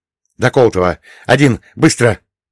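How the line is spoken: Breathless exhale. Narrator (Russian): выдохнул я

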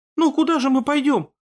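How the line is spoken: Faltering babble. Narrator (Russian): пролепетала женщина

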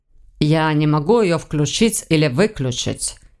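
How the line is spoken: Slightly irritated objection. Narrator (Russian): немного раздраженно возразил тот

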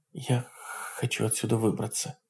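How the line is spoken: Muttered. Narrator (Russian): пробормотала она

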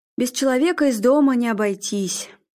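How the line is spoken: Sighed. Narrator (Russian): Арнольд вздохнул

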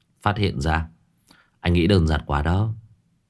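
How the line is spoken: Tongue click, soft chuckle. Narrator (Vietnamese): Số 6 tặc lưỡi khẽ cười

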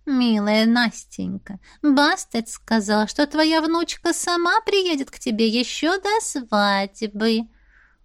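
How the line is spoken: Conciliatory purr. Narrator (Russian): промурлыкала Сирис примирительно

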